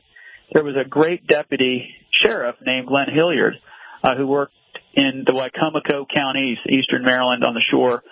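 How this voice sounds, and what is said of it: Maryland accent. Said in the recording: “my terrible Maryland accent”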